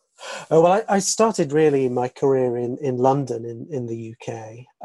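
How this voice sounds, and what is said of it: English accent. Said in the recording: “I hear that accent. I think I saw you're from Surrey, England”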